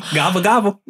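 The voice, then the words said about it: Imitates a turkey gobbling. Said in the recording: “my best turkey impression... That was awful.”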